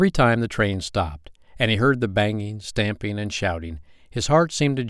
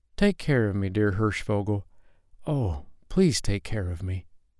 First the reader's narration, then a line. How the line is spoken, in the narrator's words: the darkness frightened him, said softly